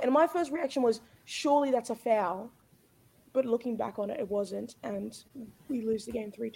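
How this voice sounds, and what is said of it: Hoarse, partly lost voice. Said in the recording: “my voice is a little bit gone... A lot of screaming being done at 3 a.m. this morning.”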